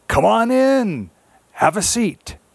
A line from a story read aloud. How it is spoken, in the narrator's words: Old man spider called out